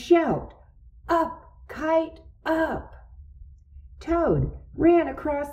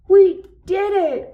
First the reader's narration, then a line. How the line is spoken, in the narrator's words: cried Toad